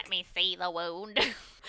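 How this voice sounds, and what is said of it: Nasal, sniffly sick-sounding character voice. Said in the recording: “Like nasally, like he's sick forever kind of a voice... Sniffling... my best Whittleby impression... That's a great Whittleby.”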